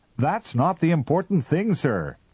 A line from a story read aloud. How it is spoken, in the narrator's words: shouted the captain